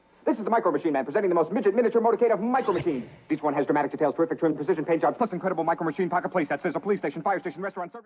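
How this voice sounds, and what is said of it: Extremely fast speech. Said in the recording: “this speed talking person ... Wow, that's going to be hard.”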